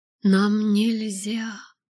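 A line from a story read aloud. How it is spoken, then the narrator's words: Moan. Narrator (Russian): простонал он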